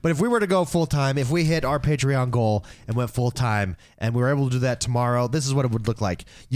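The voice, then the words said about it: Hoarse, sore-sounding voice. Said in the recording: “I don't know what's wrong with my voice. ... every time I talk, it's like it itches. It hurts right now. ... Sorry if I sound like I have a cold or something. I don't. My voice just is like screwed up right now.”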